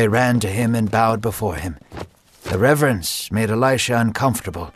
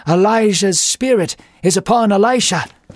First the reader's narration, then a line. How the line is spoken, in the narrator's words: A group of prophets saw this from a distance and exclaimed